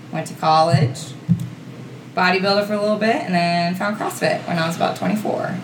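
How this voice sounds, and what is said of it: Pennsylvania accent. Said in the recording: “dad accent really, kind of heightened”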